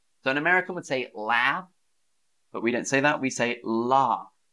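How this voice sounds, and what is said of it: Southern English accent. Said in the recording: “That's my accent. That's my dialect... That's a feature of my region of England, the South.”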